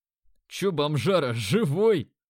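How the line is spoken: Answered with a chuckle. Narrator (Russian): ответил, хохотнув

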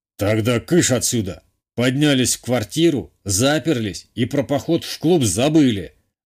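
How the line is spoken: Growl. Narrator (Russian): рыкнул он на нас

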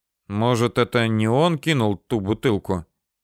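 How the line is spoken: Timid suggestion. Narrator (Russian): Робко предложил новую версию Левашов

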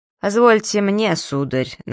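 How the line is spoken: Mocking tsar. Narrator (Russian): насмешливо произнес царь

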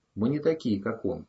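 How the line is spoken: Even-voiced reply. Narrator (Russian): ровным голосом ответил Ром

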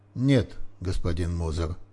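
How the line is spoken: Professor's dry reply. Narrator (Russian): сухо ответил профессор

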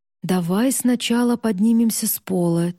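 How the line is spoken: Heavy sigh. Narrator (Russian): тяжело вздохнул Эван

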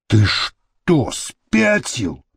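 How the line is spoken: Hissed. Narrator (Russian): прошипел он

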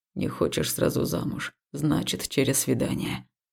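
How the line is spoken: Muffled, through gritted teeth. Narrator (Russian): глухо процедил он

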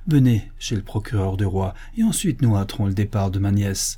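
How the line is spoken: Exasperated exclamation. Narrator (French): s'écria le chanoine, exaspéré

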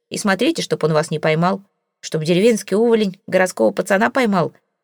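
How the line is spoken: Contemptuous scoff. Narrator (Russian): презрительно хмыкнул Джек

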